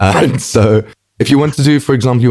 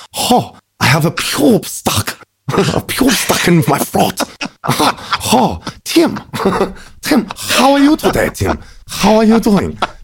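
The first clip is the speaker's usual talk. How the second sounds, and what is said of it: Put-on Japanese accent, throaty. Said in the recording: “you want to do like a Japanese accent, what you have to do is you have to imagine that the pube is stuck at the back of your throat and you're trying to cough it up while you're talking ... that's gets you a good Japanese accent”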